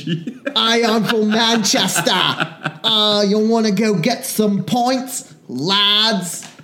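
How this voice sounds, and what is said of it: Shifting, poorly done British accents. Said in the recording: “a thick Cockney accent ... That is Scottish ... I cycled through, like, 8 different accents ... I've never said I was good at accents”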